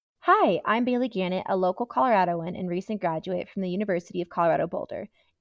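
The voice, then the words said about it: Polished professional presentation voice. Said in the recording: “I got to put on my professional voice”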